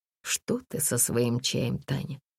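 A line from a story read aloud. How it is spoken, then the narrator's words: Grumbling. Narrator (Russian): проворчал Сергий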